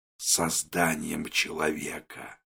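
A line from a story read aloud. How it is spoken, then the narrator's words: Whispered. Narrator (Russian): Вагнер шепотом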